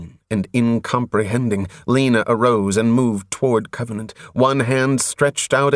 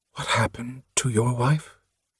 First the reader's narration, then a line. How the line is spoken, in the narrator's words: After a moment, she whispered